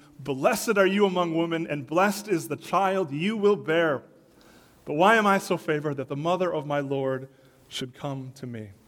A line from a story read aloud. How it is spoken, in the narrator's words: In a loud voice, she exclaimed